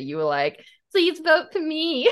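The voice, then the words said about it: Whiny put-on American accent. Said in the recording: “That's not how I sounded ... I'm getting better at my American accent ... it sounds a little whiny”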